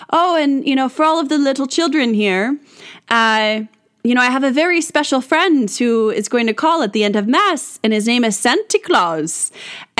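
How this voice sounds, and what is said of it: Put-on Irish accent. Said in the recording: “I'm going to have a kind of an Irish accent because he was Irish”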